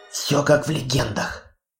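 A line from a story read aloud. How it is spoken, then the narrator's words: Whisper. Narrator (Russian): прошептала Хона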